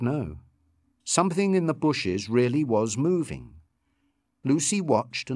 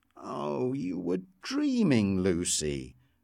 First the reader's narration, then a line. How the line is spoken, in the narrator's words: Richard told her sleepily